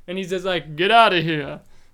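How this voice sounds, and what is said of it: Imitates another person's voice. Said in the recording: “that's my James Earl Jones impersonation for you there. It's not as good as my Paul Giamatti impersonation”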